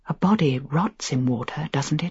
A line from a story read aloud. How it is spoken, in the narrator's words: I whispered